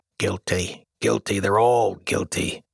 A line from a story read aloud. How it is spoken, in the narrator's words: Officer Schrift suspiciously muttering